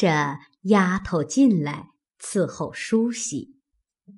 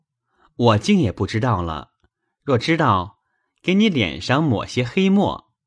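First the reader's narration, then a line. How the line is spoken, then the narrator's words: Laughing. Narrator (Chinese): 宝玉笑道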